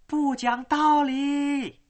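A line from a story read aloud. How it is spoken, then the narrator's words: Child's shriek. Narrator (Chinese): 一个小孩尖叫的声音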